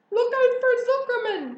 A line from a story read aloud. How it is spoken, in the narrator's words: yelled the gander